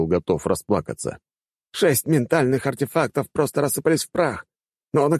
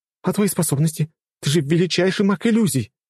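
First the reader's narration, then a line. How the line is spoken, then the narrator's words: Woman exclaiming. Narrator (Russian): воскликнула жена ректора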